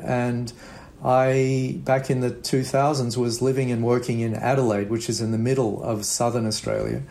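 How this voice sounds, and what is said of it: Australian accent. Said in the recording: “as you might tell from my accent, I'm from Australia.”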